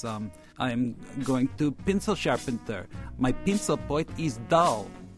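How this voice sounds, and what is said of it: Russian accent. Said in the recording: “she has this wonderful accent, having just come from Russia. Give us a taste of her her accent.”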